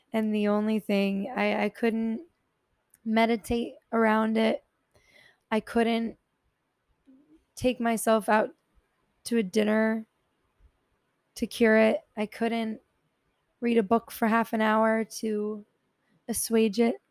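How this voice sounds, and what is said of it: Tired-sounding voice. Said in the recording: “I'm so tired. I can like hear it in my own voice.”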